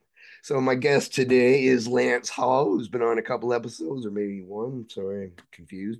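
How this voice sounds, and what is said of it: Raspy, strained voice. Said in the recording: “except for my voice ... It gives you that raspy feel ... That metal on metal feel”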